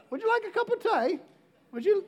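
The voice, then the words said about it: Poor attempt at British accent. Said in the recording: “How do you do the British accent? ... No, not even close?”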